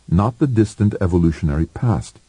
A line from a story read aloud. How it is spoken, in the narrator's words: said Wanda impatiently